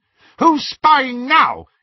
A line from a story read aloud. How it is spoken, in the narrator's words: he shouted